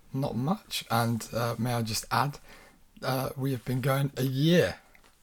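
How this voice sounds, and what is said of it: Hoarse, lost voice. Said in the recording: “I have lost my voice... This is like the third time this week. I've got laryngitis”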